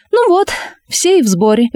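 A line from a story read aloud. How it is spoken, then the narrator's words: Cheerful exclamation. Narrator (Russian): весело воскликнула она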